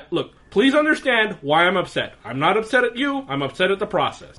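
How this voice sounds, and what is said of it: Put-on 'white guy' voice. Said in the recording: “put on my white guy voice”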